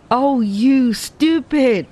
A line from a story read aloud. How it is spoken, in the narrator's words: exclaimed the girl